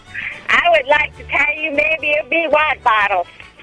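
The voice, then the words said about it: Terrible put-on Southern accent. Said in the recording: “Is this Southern? I don't even know what accent this is. This is so terrible, it's incredible... Is this your Southern accent?... that was a wonderful, terrible accent”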